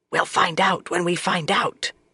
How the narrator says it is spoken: Swan whispered

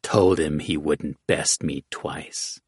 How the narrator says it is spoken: Hoodwink rasped

